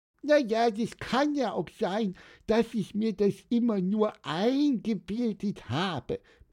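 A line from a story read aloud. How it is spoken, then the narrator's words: High squeaky voice. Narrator (German): piepste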